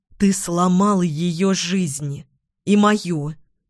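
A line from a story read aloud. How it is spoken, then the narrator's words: Said through teeth. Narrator (Russian): процедила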